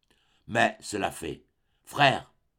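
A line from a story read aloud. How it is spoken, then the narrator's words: Plain. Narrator (French): dit-elle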